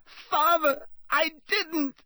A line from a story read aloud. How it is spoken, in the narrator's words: shrieked the boy in chains below